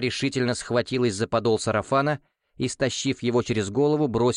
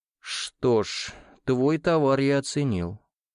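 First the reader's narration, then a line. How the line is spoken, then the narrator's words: Completely calm reply. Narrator (Russian): совершенно спокойным голосом ответил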